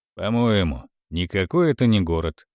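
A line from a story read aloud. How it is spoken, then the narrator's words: Completely calm. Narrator (Russian): сказал Барака совершенно спокойно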